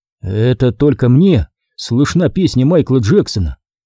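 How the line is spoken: Plain. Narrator (Russian): спросил я

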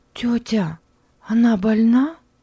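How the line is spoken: Uncertain question. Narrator (Russian): неуверенно спросила Мари

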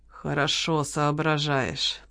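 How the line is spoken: Through gritted teeth. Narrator (Russian): процедила официантка

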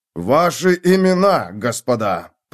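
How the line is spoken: Growling. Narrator (Russian): прорычал сержант

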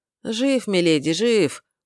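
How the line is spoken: Fawning distant mutter. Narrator (Russian): угодливо пробормотал кто-то из дальнего угла пыточной

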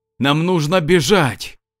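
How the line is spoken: Lion shouting. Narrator (Russian): прокричал лев

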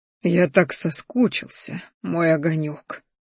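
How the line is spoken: Whisper. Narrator (Russian): прошептал

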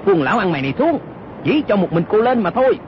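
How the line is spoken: Shouting. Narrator (Vietnamese): Âu Dương Cát y quát lên

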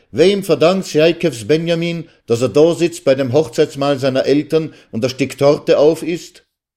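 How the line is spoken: Shouting. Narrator (German): schrie er

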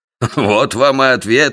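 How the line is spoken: Laughing. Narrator (Russian): рассмеялся МакМертри

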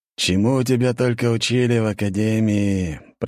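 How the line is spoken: Groaning. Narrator (Russian): простонал великий князь и пояснил

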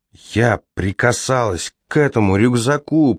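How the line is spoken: Moaning. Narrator (Russian): простонала Тамара

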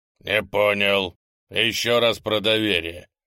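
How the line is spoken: Growl. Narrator (Russian): прорычал Огр, нахмурившись

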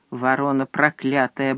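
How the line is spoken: Muttering. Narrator (Russian): бормотал он

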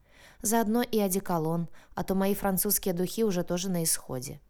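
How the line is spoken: Sad. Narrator (Russian): печально добавила Сара

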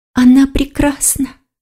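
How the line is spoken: Fox whispering. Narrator (Russian): прошептала лиса

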